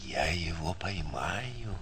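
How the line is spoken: Solemn, self-important. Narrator (Russian): торжественно и важно сказал

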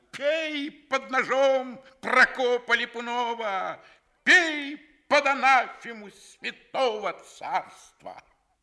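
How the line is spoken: Theatrical tragic shouting. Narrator (Russian): кричал, подражая трагику Каратыгину

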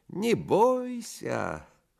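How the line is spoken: Thin singsong voice. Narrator (Russian): Селифан примолвил тонким певучим голоском

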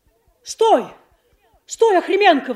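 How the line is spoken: Sudden sharp shout. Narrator (Russian): вдруг резко закричал Белоногов

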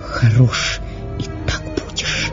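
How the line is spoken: Whisper. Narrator (Russian): прошептала Катерина Львовна

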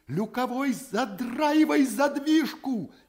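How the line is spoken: Frantic scream. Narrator (Russian): Истошно вопит Шахматов

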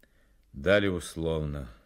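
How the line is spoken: Gloomy. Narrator (Russian): мрачно произнес Фонарев

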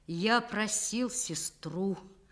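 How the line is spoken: Hollow, empty voice. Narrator (Russian): потом пустым голосом выговорил

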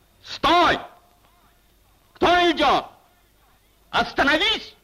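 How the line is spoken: Shout. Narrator (Russian): крикнул голос

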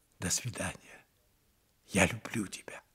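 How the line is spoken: Whisper. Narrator (Russian): Франсуаза прошептала

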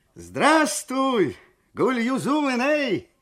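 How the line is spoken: Shouting. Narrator (Russian): крикнул Шакир

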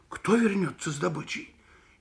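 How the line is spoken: Frightened question. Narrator (Russian): испуганно спросил Митя

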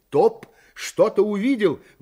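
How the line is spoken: Excited exclamation. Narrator (Russian): воскликнул один из пассажиров

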